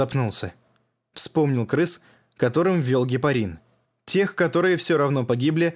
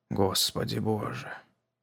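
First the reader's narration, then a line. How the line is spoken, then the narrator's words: Whispered. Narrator (Russian): Прошептал он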